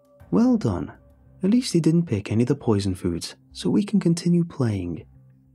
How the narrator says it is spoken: said cheerfully, but I could hear the disappointment

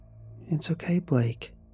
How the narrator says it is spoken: she says softly

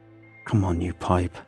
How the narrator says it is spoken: I hiss through the mouthpiece

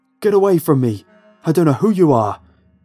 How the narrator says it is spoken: he yelled, frantically

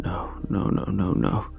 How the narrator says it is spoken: under his breath

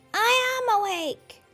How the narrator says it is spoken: shouted

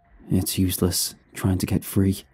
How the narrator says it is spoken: he whispered, and would have been barely audible if his voice hadn't echoed in the empty room

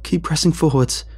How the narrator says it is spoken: Jake shouts

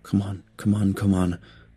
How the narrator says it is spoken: I whispered

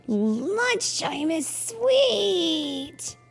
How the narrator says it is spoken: yelled Clark the Shark

